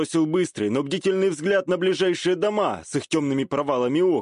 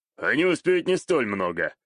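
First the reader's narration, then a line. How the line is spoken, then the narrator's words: Snort. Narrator (Russian): хмыкнул Саитера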